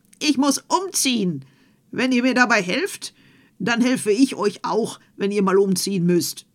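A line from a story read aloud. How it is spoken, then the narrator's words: Called out. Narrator (German): stand Puck Krähenfuß und rief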